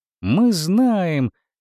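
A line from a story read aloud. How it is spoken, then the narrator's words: Joyful shouting. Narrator (Russian): радостно закричали Артур и Паскаль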